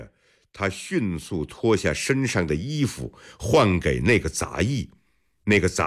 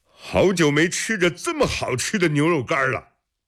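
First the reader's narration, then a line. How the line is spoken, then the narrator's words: Deliberately loud. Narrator (Chinese): 施罗蝶会意地放大声说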